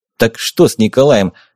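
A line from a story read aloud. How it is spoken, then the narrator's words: Rude interruption. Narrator (Russian): Грубо перебил я барона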